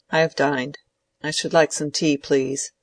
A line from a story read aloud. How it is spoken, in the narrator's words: said Lydgate curtly, still scowling